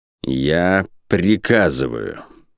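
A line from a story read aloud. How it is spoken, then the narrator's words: Icy tone. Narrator (Russian): сказал он ледяным тоном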